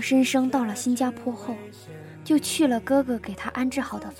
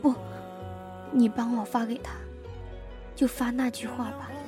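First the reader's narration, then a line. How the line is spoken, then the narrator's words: Trembling voice. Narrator (Chinese): 蒋诗琪声音颤抖着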